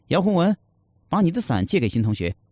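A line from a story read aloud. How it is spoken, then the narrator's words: Loud. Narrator (Chinese): 老师大声地说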